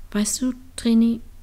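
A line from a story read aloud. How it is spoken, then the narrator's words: Gentle. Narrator (German): sagte sanft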